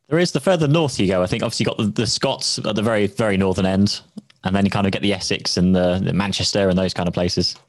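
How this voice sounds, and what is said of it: Southern English accent. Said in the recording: “who is in the south of the UK. You can tell by his southern accent.”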